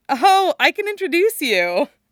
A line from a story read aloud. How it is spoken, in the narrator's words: Veronica says, laughing